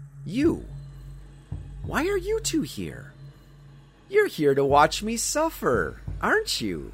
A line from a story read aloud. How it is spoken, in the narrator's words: her voice was smooth and sweet, dripping with honey